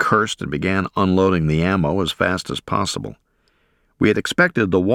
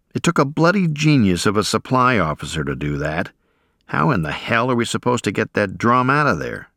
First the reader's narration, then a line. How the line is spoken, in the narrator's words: Our NCO remarked in an exasperated tone